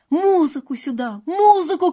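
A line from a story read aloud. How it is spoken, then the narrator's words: Emperor shouting. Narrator (Russian): кричал император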